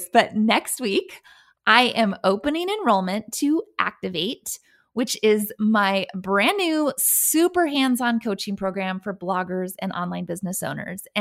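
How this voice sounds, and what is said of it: Excited, giddy voice. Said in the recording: “I'm so excited about this. I'm practically giddy. You can probably hear it in my voice.”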